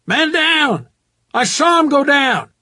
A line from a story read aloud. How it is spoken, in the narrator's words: Shouts from below, someone yelling